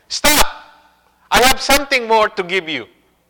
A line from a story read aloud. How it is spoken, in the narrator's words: In disgust, the thief was turning away when John Wesley cried